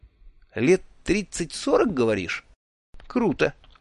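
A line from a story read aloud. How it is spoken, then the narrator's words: Confused reply. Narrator (Russian): растерянно отозвался я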